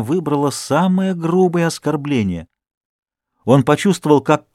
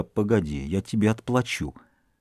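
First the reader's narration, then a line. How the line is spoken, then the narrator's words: Muttered. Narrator (Russian): бормоча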